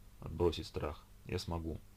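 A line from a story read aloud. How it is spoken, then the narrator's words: Muttering. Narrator (Russian): пробормотала Ольга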